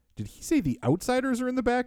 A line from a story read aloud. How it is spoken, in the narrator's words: asks Tony